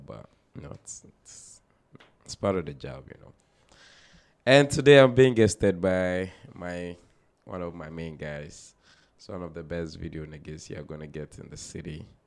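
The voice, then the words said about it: Messed-up, worn voice. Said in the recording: “Excuse my voice a bit. I was working last night, so my voice is a little messed up”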